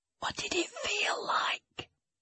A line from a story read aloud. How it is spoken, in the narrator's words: I asked as quietly as I could